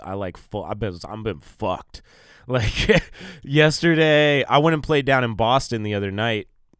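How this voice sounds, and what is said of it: Congested, allergy-affected voice. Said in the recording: “I've never had allergies this bad ... as you can tell by my voice”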